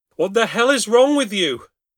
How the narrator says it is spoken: yelled

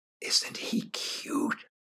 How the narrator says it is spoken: whispered

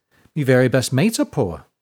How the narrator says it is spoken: she chirped

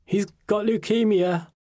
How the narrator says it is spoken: Mum blurted out, sobbing

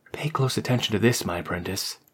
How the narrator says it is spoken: whispered into her ear

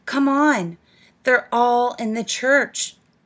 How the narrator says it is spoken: cried

